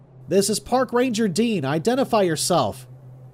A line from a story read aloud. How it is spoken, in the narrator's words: he yelled loudly